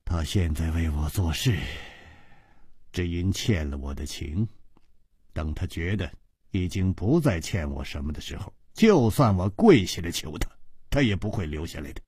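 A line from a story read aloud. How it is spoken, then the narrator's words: Sighing. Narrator (Chinese): 他像是叹了一口气，然后接着说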